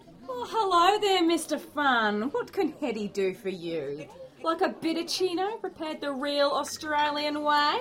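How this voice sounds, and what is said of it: Silly fake Australian accent. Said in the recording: “drop that silly accent ... Heaps. Bonza, didgeridoo is what I'm talking about.”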